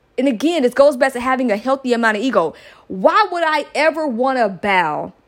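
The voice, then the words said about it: Yelling. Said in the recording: “I'm yelling.”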